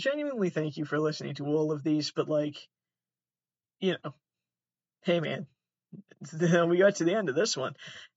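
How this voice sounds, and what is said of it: Sad-sounding voice with unusual accent. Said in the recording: “something about his voice, sounds sad. Sounds like a sad man. Sad man with a silly, silly accent.”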